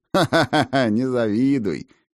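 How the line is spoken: Guffawing wizard. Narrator (Russian): хохотнул волшебник

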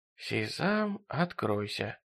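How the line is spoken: Relieved whisper. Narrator (Russian): облегченно прошептал Джерри

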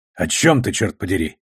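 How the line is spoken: Snapping retort. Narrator (Russian): огрызнулся он

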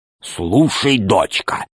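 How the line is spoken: Loud whisper. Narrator (Russian): сказал он громким шепотом

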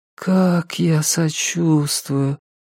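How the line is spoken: Drawling. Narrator (Russian): протянула Шинейд

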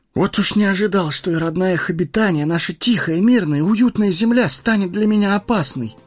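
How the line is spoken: Exclaiming. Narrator (Russian): воскликнул Фродо

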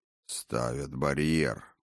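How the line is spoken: Mutter. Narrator (Russian): пробормотал

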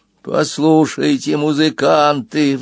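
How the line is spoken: Pleading plant. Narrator (Russian): взмолилось ближайшее растение справа

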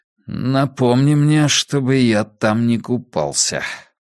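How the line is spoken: Through clenched teeth. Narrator (Russian): процедил Драк Кайнен

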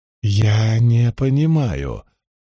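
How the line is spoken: Slow. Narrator (Russian): медленно произнесла Илэйн

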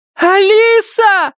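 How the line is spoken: Shouted. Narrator (Russian): закричала Памела

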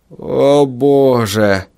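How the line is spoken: Groan. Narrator (Russian): простонал он

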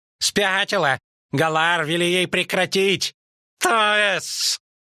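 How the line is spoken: Shrill squeal. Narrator (Russian): Взвизгнула Трувьель

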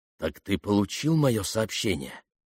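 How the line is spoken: Quiet near-whisper, female voice. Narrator (Russian): Говорили тихо, почти шепотом, но голос явно был женский

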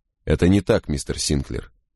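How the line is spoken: Curt clipped speech. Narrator (Russian): отрывисто сказал Крози

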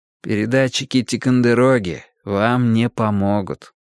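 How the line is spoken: Tired explanation. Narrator (Russian): устало объяснил я

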